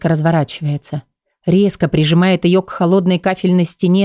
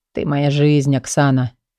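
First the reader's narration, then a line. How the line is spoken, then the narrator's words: Tender rhythmic whisper. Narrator (Russian): Нежно шепчет с каждым толчком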